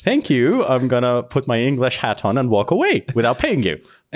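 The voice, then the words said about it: Put-on English accent. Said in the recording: “And that was authentic English accent... That was pretty good for you”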